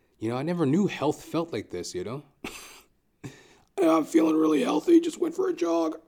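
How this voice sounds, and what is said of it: Raspy, rough throat. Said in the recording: “I got a bit of like runner's throat going on... Raspy?... I've been like walking around with this rasp in my throat.”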